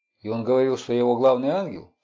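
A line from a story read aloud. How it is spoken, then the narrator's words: Plain. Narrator (Russian): спросил Хукер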